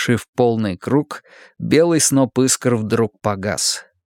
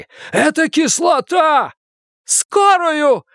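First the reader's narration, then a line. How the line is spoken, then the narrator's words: Screaming. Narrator (Russian): закричала Бакстер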